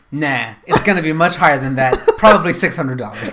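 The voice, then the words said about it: Curmudgeonly impression of co-host. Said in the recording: “That's a pretty good impression, by the way, how I usually say. ... I'll be curmudgeonly Scott.”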